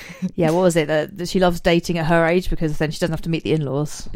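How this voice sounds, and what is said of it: Usual voice. Nothing is said of it.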